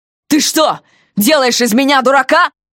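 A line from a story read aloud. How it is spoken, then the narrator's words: Distorted yelling. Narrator (Russian): Не своим голосом заорал он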